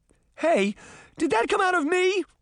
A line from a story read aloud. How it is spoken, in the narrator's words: Sabrina cried